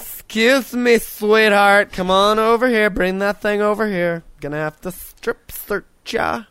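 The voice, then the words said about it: Imitates a flamboyant man's voice. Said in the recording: “That's a pretty good impression there”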